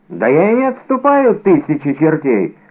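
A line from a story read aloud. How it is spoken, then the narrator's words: Exclaimed, forcing courage. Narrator (Russian): воскликнул гость, пытаясь с помощью проклятий вернуть себе мужество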